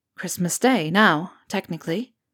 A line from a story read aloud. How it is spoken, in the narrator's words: Harry said quietly